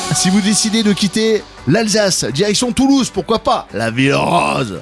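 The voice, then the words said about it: Put-on southern French accent. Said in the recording (French): “Obligé de le dire avec cette voix et avec cet accent, bien sûr ... Tu mises bien Galabru, hein.”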